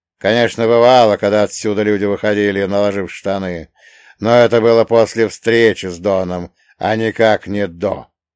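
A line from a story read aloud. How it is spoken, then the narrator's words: Loud guffawing laugh. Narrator (Russian): громко заржал, радуясь своему тупому чувству юмора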